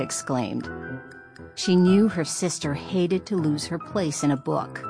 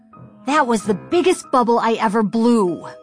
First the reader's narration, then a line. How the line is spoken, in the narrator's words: said angrily